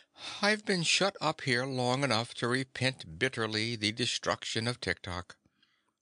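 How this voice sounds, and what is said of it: Meek, timid voice. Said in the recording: “in a meek voice”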